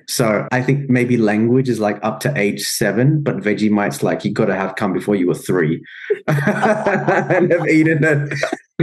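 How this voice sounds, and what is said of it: Australian English accent. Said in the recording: “accent-wise, I think both of us, we were young enough... Our English is Australian accent, yes, English, very clearly.”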